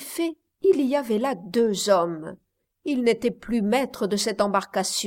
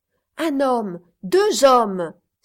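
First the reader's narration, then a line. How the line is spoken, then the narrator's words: Exclaimed. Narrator (French): s'écria Partridge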